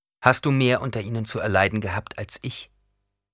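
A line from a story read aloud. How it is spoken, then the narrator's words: Plain. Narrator (German): fragte Paul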